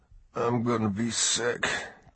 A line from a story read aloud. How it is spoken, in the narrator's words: Ty muttered